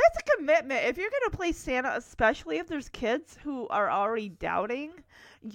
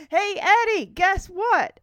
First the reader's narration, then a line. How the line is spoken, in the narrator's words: shouts